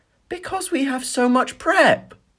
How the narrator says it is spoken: Tracy moaned dramatically

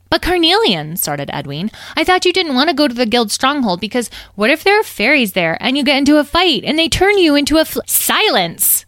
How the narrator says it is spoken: snapped Citrine

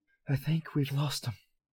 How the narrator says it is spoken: Harry panted

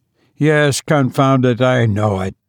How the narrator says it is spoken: her husband growled

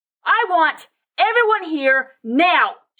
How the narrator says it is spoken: screamed with her mind as well as her voice

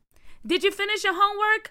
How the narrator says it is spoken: Aunt Jackie yelled out of the window

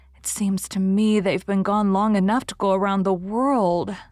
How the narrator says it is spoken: sighed Anne

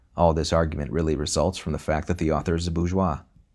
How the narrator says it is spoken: any Marxist, he is murmuring to himself

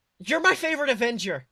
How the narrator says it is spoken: she blurted out

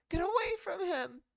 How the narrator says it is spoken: Ali shrieked hysterically

